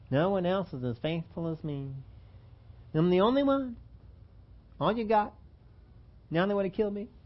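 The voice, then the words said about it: Whiny complaining voice imitating Elijah. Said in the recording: “Don't get into that whiny voice. Don't get in there complaining. Don't follow after Elijah ... Don't get into that whiny voice.”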